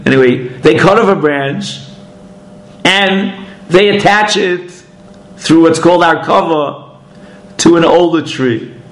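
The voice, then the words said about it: Brooklyn accent. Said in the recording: “Where I come from now, these days they call it a branch. Okay. I have this Brooklynese accent.”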